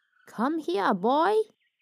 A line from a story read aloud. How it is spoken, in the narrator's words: The old man chuckled